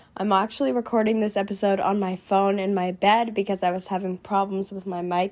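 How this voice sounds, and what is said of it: Sick, congested voice from a cold. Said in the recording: “As you can tell by my voice, I'm a little bit sick. I'm just getting over a cold”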